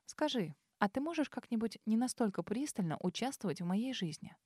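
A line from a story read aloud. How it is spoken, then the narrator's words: Forced even tone. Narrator (Russian): Постаралась сказать это ровным тоном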